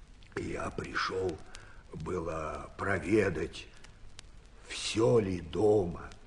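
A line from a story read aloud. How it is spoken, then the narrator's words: Quiet, stammering. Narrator (Russian): тихо отвечал Архип, запинаясь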